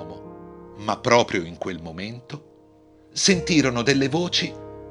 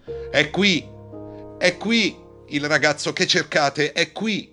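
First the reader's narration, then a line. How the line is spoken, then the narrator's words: Man yelling. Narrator (Italian): urlò l'uomo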